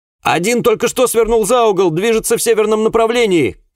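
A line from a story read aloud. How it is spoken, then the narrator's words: Shouted after, policeman. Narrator (Russian): крикнул мне вслед полисмен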